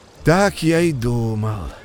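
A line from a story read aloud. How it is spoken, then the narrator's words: Sad sigh. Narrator (Russian): печально вздохнул бобр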